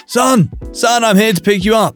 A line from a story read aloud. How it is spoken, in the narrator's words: yelling